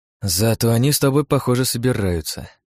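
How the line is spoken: Sighed. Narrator (Russian): вздохнул я

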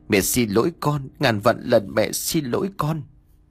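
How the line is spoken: Tearful, whimpering. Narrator (Vietnamese): Bà Biên vừa mếu máo vừa nói

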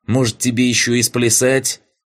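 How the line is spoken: Snapping retort. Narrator (Russian): огрызнулась та

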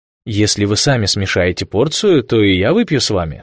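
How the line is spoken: Plain. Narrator (Russian): сказал Виллисон

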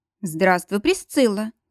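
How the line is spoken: Soft, smiling voice. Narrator (Russian): Мягко улыбнулся король Сигизмунд

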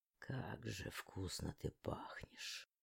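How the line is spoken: Mumble. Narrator (Russian): пробормотал он

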